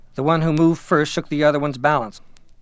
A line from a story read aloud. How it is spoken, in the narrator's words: Someone on the platform exclaimed